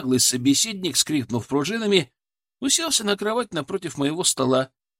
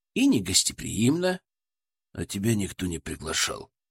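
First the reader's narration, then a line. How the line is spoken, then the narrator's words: Grumbled. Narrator (Russian): буркнул я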